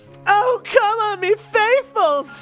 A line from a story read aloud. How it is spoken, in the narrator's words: Holly cried out